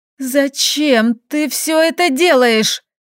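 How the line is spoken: Choked hoarse rasp. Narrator (Russian): Задыхаясь эмоциями, прохрипела

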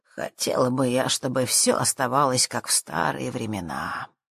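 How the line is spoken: Wistful sigh. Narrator (Russian): вздохнула миссис Дринквотер

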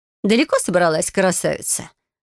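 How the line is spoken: Mocking question. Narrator (Russian): насмешливо уточнила

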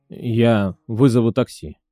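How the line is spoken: Quiet. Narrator (Russian): тихо ответил Сергей

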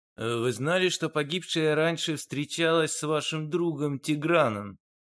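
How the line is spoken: Plain question. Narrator (Russian): спросил Дронго

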